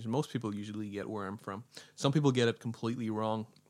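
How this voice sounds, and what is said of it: Northern Irish accent. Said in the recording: “I have an odd accent. My accent is a little bit strange... I'm from like Northern Ireland.”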